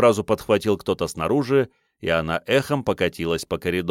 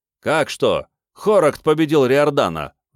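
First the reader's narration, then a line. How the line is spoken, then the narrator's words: Loud bark. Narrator (Russian): гаркнул Тиллер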